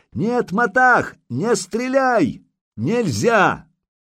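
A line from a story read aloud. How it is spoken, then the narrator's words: Shouting at full strength. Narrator (Russian): Илья закричал во всю мочь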